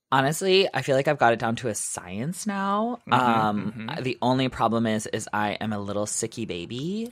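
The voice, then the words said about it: Raspy, husky sick voice. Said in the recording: “raspy, sexy voice ... you've got that jazz voice ... I got a jazzy voice”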